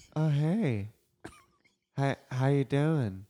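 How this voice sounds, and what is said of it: Creepy character voice. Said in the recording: “Oh, it's so creepy... that's my impression of this character”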